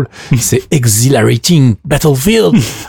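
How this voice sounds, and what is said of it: Exaggerated accent on English title. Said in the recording (French): “avec mon accent extraordinaire”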